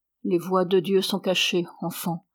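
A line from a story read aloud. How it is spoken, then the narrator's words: Murmured. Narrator (French): murmura-t-elle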